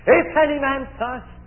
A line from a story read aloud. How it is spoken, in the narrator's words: the one cries out